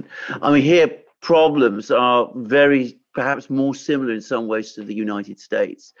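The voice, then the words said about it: British accent. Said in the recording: “I live in Britain. You can tell from my accent.”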